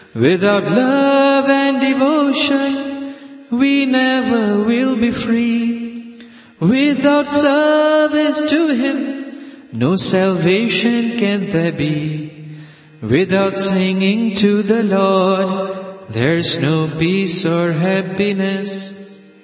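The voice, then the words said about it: Loud, screaming singing voice. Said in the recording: “Why are you screaming?”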